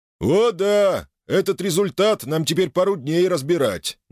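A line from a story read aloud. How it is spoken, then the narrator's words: Joyless chuckle. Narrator (Russian): невесело хохотнул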